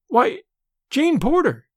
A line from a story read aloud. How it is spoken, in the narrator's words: she exclaimed